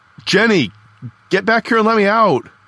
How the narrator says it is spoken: I yelled through the wire mesh window in the door

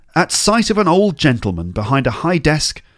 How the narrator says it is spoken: Scrooge cried in great excitement

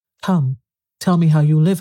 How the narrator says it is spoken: I cried

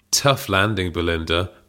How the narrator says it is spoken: purred Hazel

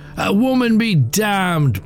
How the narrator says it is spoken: barked the soldier

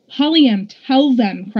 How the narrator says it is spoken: cried Daja

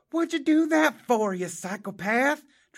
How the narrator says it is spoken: Travis Troy hollered

